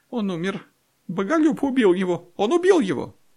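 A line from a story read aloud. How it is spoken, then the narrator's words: Squeaky female voice. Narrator (Russian): женский голос пискнул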